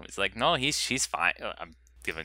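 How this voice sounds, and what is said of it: Terrible put-on Mexican accent. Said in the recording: “That's the terrible Mexican accent he had.”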